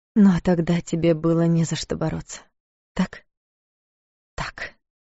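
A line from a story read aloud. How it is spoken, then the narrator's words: Mumbling to herself. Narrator (Russian): Пробормотала она, отвечая сама себе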